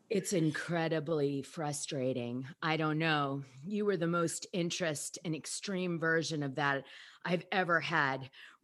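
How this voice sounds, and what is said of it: Put-on sexy voice. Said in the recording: “do a sexy voice”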